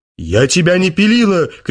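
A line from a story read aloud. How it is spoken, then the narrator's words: Wife shouting. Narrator (Russian): кричала жена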